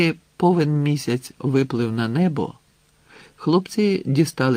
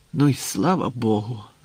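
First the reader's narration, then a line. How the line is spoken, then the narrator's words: Relieved sigh. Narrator (Ukrainian): з полегкістю зітхнув Грицик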